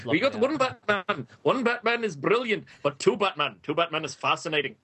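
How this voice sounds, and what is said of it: Attempted Scottish accent, imitating another person. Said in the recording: “my Grant Morrison impression ... I can't do Scottish”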